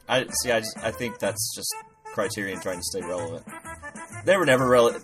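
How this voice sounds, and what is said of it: Imitates another person's voice. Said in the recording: “doing an impression of Dave, a.k.a. Hey, Bobby! Here's a clip of that impression.”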